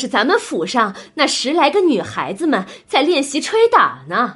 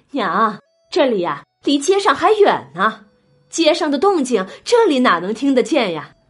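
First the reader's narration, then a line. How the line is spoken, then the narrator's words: Laughing reply. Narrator (Chinese): 黄夫人呐，笑着回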